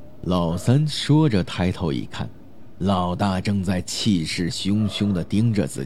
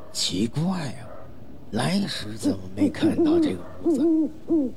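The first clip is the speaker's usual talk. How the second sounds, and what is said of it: Quiet, hushed voice. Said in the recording (Chinese): “小声”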